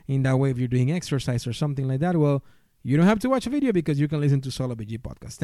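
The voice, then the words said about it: Heavy non-native English accent. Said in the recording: “my awful accent”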